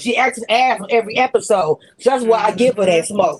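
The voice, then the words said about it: Yelling, loud angry voice. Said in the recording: “stop yelling at me ... You just went the fuck off ... Why are you yelling at me?”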